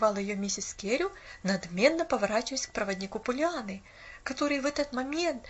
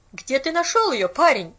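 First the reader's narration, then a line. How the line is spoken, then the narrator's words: Sharp repetition. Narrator (Russian): резко повторила она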